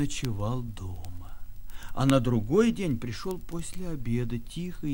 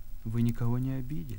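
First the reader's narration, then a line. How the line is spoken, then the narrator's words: Unusually quiet, fearful. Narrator (Russian): бабушка боится его, говорит необычно, тихо слишком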